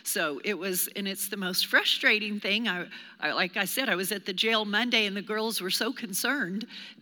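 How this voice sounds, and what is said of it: Hoarse, strained voice. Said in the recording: “the devil came and tried to steal my voice... I literally lost my voice totally. If you think this sounds bad, you should have heard me like Friday.”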